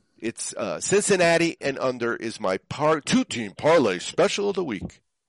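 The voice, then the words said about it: Put-on radio announcer voice. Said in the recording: “I don't do radio voice well.”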